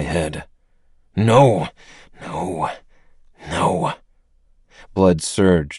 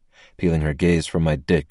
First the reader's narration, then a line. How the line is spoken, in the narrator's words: she scoffed